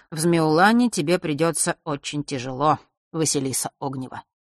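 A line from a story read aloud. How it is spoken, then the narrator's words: Bored tone. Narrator (Russian): произнес он все тем же скучающим тоном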